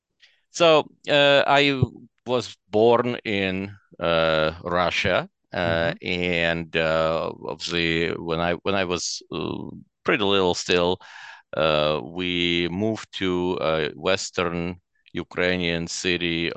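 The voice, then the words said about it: Foreign accent in English. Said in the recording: “We can hear that maybe you are not originally from Kitchener, Ontario.”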